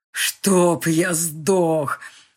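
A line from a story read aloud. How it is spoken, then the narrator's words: Growling, hysterical laughter. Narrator (Russian): рычал Ник и истерически хохотал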